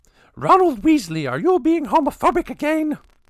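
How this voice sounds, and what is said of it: Impression of Molly Weasley's scolding voice. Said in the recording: “I don't know if I'm doing a very good Ron Weasley's mom impression ... Is that a good Molly Weasley impersonation? ... You've got the inflections down anyways.”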